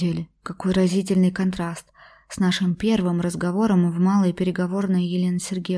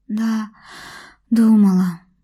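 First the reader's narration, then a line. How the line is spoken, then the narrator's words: Sad sighing dreamer. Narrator (Russian): грустно вздохнула мечтательница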